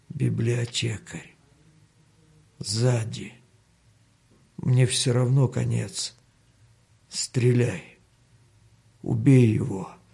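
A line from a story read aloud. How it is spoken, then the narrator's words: Weakening, pleading voice. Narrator (Russian): попросил слабеющим голосом Данила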